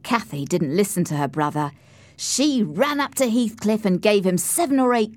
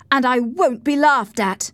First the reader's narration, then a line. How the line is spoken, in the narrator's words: replied Heathcliff angrily